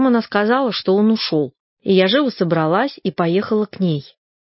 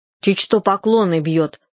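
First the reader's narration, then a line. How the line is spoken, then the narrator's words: Angry. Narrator (Russian): сказала она сердито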